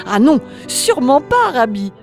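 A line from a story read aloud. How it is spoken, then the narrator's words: Man exclaiming. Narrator (French): s'écria l'homme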